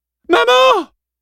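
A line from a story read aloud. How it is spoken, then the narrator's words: Yelled. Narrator (French): hurla Lorenz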